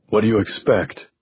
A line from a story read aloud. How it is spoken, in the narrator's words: Gordy asked